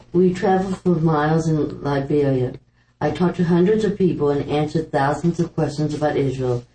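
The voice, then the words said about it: Put-on accent while reading aloud. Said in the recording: “I'm going to try the accent.”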